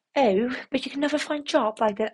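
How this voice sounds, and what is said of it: Put-on posh English accent. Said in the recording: “That was my English accent, by the way ... I meant it to be posh”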